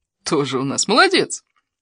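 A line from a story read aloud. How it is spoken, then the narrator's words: Livened-up girl laughing. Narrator (Russian): Девушка заметно ожила и рассмеялась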